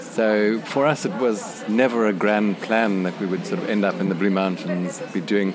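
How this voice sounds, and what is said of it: South African accent. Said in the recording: “Maybe we can hear from your accents that you're South African.”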